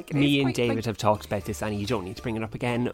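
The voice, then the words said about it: Northumberland English accent. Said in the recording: “what a gorgeous accent ... that is what a Northumberland accent is actually like ... This is an authentic Northumberland accent.”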